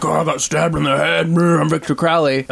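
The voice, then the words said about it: Impression of Victor Crowley. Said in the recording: “Good impression.”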